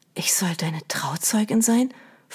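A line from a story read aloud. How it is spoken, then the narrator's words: Whisper. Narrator (German): flüsterte sie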